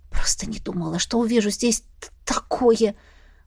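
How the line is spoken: Muttered. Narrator (Russian): Пробормотала я

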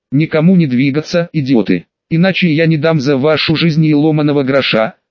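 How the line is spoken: Hiss. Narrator (Russian): прошипел он

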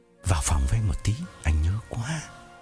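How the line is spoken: Whispering. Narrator (Vietnamese): Phong ghé tai Hằng thì thầm

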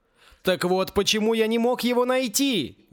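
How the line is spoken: Exclamation. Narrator (Russian): воскликнул Югурус

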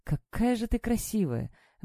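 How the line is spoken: Breathy exhale. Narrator (Russian): выдохнул он

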